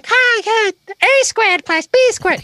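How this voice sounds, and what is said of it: Elmo-style character voice. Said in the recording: “these different characters, like Elmo ... That's not really my Elmo impression.”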